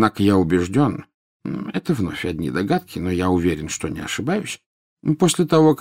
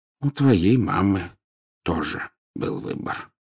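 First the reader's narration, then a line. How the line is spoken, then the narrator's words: Said softly. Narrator (Russian): мягко проговорил Дамблдор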